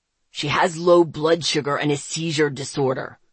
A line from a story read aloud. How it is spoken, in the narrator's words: Zeke growled